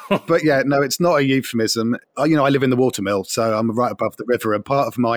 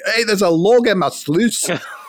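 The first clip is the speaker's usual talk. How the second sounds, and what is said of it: Put-on Scottish accent. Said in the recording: “I should be saying that with a Scottish accent”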